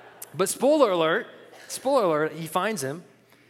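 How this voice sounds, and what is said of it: Usual voice. Nothing is said of it.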